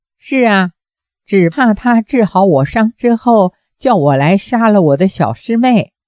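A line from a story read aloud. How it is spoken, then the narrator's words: Faint smile. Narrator (Chinese): 令狐冲 淡淡一笑，说道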